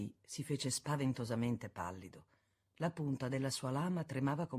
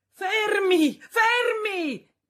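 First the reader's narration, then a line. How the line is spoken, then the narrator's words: Shout from the street. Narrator (Italian): gridò una voce dalla strada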